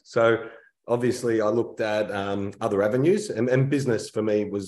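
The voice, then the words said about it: Australian accent. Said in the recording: “So I hear an accent ... obviously the accent Australian”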